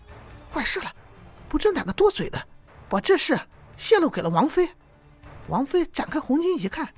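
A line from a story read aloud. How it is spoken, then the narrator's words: Breathless, urgent. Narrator (Chinese): 女子忽然气喘吁吁的说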